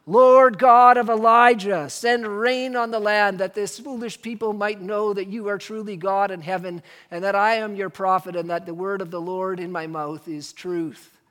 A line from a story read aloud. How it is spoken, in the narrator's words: He could have cried out